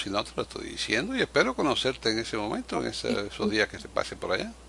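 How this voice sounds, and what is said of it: Cuban Spanish accent. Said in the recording (Spanish): “Ese acento ... cubano”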